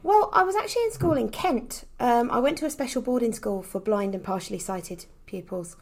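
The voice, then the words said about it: Slight Essex accent. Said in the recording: “I thought I detected a little bit of an Essex accent there.”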